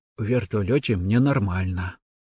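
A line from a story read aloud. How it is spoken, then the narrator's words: Embarrassed whisper. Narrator (Russian): смущенно шепнул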